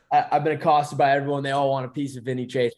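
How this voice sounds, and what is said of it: Put-on Boston accent. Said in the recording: “I don't know why I threw on a Boston accent there.”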